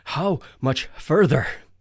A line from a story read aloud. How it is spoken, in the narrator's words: I asked breathlessly